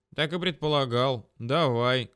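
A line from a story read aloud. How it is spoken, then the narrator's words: Calm reply. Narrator (Russian): спокойно откликнулся он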